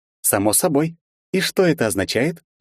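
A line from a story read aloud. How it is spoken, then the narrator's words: Childlike cheerful question. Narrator (Russian): по-детски весело улыбаясь спросила Вета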